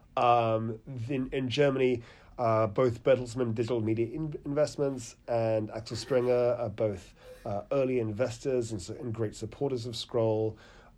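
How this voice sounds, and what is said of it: British accent. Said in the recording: “you can tell about the UK from my accent.”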